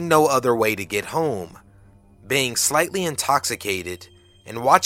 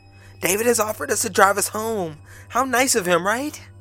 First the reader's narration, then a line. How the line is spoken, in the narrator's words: Corrine pops up and cheerfully announces